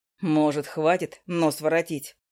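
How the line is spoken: Mocking question. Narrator (Russian): насмешливо спросил Макс

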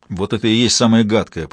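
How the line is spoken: Grumbling. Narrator (Russian): поворчал

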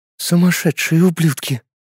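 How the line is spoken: Woman whispering. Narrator (Russian): шепот женщины, обращающейся к мужчине

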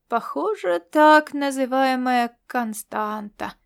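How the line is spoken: Lazy drawl. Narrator (Russian): протянул он ленивым тоном

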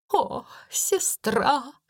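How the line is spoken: Sobbing exclamation. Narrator (Russian): всхлипывая, воскликнула она

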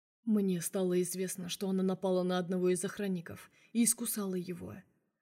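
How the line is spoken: Plain. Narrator (Russian): ответил Влад

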